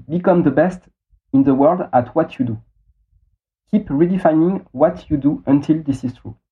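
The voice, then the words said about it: Heavily accented English. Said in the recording (French): “mon accent pourri”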